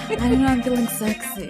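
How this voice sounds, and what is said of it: Put-on sultry sexy voice. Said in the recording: “sexy voice ... It's a little Phoebe”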